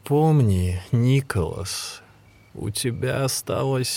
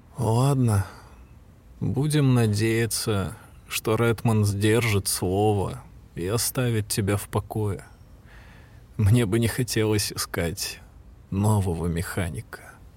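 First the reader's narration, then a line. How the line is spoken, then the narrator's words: Gloomy conclusion. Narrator (Russian): мрачно заключил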